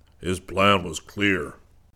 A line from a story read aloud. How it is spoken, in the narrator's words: Zircon boomed